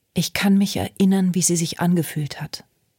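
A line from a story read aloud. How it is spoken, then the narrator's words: Plain. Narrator (German): sagte Ruby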